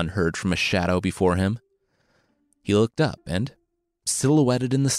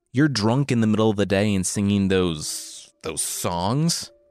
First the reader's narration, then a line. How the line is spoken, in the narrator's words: the leaner one spat